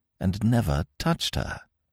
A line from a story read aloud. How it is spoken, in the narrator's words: whispered Smith brokenly